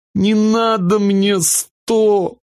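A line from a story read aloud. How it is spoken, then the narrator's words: Sobbing little sister. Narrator (Russian): всхлипнула сестренка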